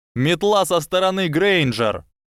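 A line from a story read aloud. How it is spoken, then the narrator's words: Shouted. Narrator (Russian): прокричал кто-то еще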